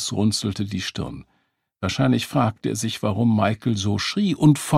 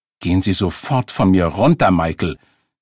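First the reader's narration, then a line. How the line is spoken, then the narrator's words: Woman snapping angrily. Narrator (German): fuhr sie ihn wütend an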